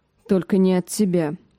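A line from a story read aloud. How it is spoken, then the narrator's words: Muffled grumble. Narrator (Russian): пробурчала Ария в свою лепешку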